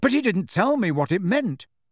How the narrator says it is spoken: said Harry impatiently

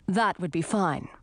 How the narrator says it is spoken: said the herald

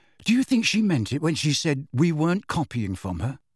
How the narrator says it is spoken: he added, in a slightly more anxious tone

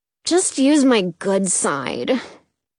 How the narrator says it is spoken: he sighs

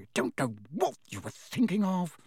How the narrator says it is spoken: she muttered

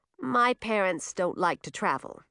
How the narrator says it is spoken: said Edric

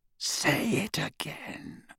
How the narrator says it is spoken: murmured Voldemort

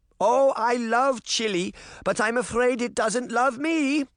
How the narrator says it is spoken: Granny shouted back

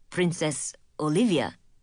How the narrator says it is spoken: he said

